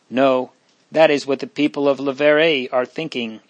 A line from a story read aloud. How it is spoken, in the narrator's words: answered with a grim laugh